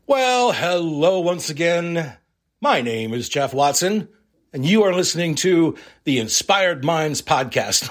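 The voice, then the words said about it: Game show host announcer voice. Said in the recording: “do I sound like a game show host?”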